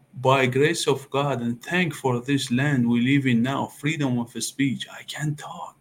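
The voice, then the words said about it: Non-native English accent. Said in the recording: “your accent”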